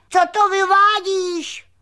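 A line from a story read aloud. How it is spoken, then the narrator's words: Shouted. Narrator (Czech): křikl křemílek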